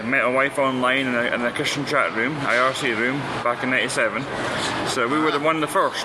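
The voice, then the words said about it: Scottish accent. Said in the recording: “So your accent's interesting. ... I'm from Scotland.”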